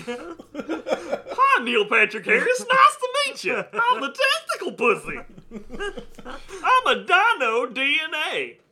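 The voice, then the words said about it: Silly dinosaur character voice. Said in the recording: “doing the dino DNA voice”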